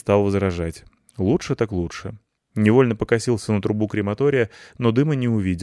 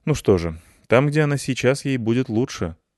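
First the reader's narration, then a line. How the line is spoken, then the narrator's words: Casual everyday tone. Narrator (Russian): сказал Петрович таким обыденным тоном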